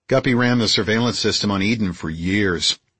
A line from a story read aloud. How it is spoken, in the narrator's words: Bob said